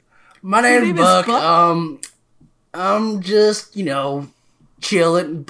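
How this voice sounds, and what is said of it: Character voice sounding much older. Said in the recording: “you sound way older than that. ... you sound old. ... it was actually really bad for my throat. So now I sound like this.”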